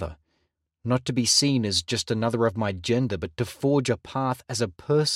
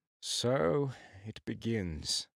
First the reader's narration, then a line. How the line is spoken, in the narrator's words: he murmured